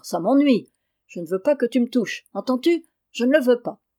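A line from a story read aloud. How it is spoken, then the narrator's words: Exclaimed. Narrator (French): s'écria Gaspard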